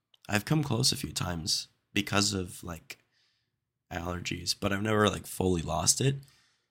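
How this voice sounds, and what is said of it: Congested, nasal voice. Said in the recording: “As you can probably hear, I've got a cold again... I've recorded probably 20% of my podcast with a nasally voice”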